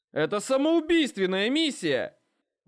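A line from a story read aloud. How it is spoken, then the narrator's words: Shout from the ranks. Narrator (Russian): выкрикнул кто-то из строя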